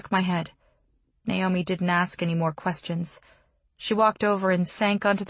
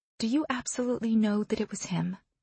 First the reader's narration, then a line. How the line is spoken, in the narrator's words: she said softly